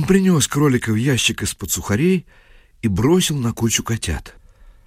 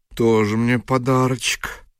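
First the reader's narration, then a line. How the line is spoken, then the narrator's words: Grumbling. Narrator (Russian): поначалу ворчала шамайка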